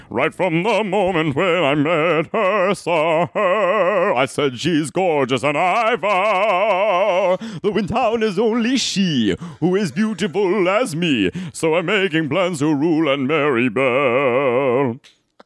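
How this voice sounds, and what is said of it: Operatic sung cartoon-villain character voice. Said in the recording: “impression of a straight guy is Gaston from Beauty and the Beast ... She's saying opera ... my impression of a straight guy”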